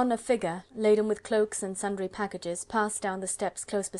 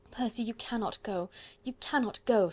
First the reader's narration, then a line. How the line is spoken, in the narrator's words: she pleaded